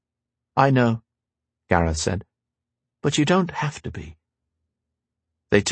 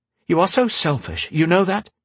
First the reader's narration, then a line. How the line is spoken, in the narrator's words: He snapped